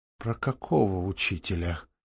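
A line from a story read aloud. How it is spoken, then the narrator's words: Quiet question. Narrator (Russian): тихо спросила Екатерина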